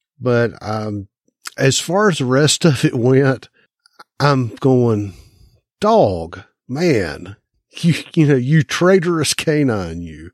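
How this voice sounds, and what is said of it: Southern drawl. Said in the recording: “pronounced Southern accent ... drawl ... I will not be stereotyped by my accent”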